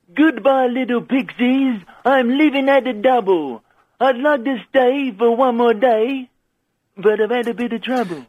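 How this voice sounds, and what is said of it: Frank Spencer impression. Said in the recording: “someone doing a Frank Spencer impression”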